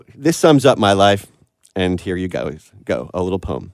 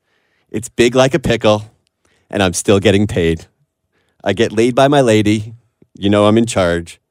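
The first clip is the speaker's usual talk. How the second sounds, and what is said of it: Imitates another person's voice. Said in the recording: “I don't have the Morgan Freeman voice... listen to this in a Morgan Freeman voice”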